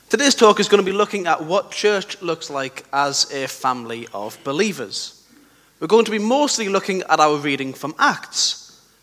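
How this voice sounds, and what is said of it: Croaky, sore-throated voice. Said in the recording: “I've got a bit of a sore throat, so if I'm a bit croaky today”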